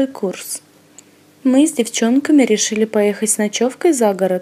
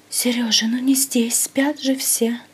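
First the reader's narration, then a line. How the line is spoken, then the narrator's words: Whisper. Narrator (Russian): шептала Надя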